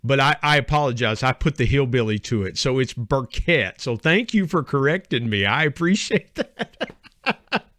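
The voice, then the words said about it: West Virginia hillbilly accent. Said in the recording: “I put the hillbilly to it ... Living in West Virginia. See, our dialect up here”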